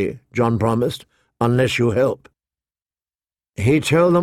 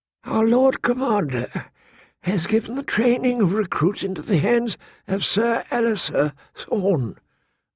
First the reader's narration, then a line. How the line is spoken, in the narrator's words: the maester said gently